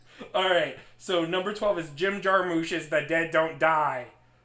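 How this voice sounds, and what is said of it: Nasal imitation of another person's voice. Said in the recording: “I will do it in David's voice ... just a little bit more nasally ... I forgot it was you for a moment.”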